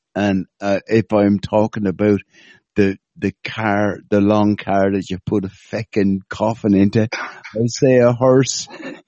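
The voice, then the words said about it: Irish accent. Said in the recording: “my fucking Irish accent”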